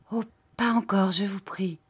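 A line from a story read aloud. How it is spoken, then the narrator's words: Hurt, pleading, more abrupt. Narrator (French): Il sembla désappointé, un peu froissé, et il reprit d'un ton toujours suppliant, mais plus brusque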